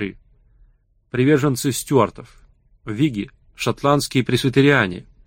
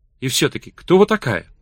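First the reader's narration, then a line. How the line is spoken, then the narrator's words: Calmer tone. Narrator (Russian): продолжал он уже более спокойным тоном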